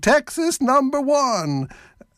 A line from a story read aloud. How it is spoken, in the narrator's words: Some people ... shouting